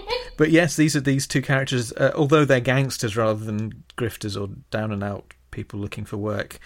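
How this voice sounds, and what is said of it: Usual voice. Nothing is said of it.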